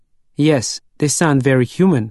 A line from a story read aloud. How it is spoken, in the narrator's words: said